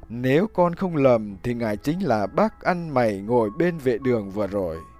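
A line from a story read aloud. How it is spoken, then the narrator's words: Trembling voice. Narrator (Vietnamese): chàng run run nói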